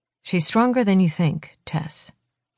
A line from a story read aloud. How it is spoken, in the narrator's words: he says quietly